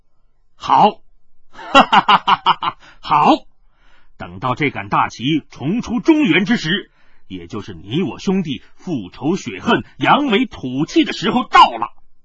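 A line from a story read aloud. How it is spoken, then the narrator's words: Loud laughter. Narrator (Chinese): 云九霄也大笑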